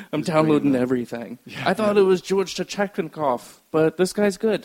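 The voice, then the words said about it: Put-on Ukrainian accent, rolling and throaty. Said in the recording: “That was my Ukrainian impression. ... They all sound the same. ... rolling and throaty. ... All my impressions sound Jamaican, no matter what I'm doing. I'm just not good impressions.”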